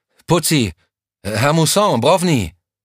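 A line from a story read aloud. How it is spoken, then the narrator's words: Increasingly loud desperate calling. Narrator (German): Immer lauter rief er ihre Namen in das Nichts hinein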